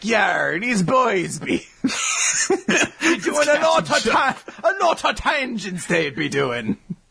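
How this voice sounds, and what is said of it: Pirate-like Sasaki-san impression. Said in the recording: “my Sasaki-san impersonation. That's what he sounds like, right? He's a pirate.”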